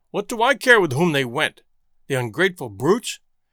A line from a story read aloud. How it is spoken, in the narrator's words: exclaimed the other